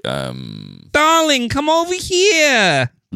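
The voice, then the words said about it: Thick New York Jewish accent. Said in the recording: “the really thick, like New York Jewish accent ... she kind of sounds like... Lois from Family Guy”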